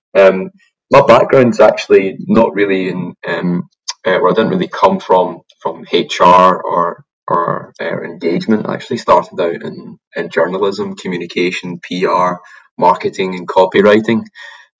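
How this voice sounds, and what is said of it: Glaswegian Scottish accent. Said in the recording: “the accent's not really from there. I'm from Glasgow originally”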